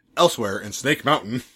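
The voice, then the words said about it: Dramatic announcer voice. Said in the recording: “Just like using the announcer voice.”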